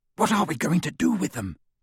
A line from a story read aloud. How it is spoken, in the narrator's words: Ron whispered to Harry through the dark